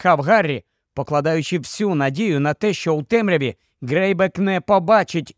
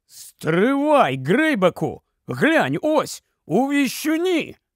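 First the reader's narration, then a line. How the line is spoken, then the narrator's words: Exclaimed. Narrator (Ukrainian): Скабіор це вигукнув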